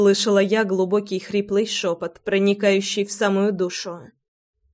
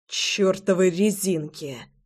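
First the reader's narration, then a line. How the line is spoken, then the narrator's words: Mutter. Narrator (Russian): Пробормотал он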